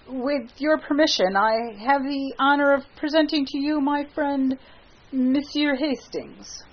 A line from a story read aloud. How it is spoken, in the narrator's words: Clifford, very red, stammered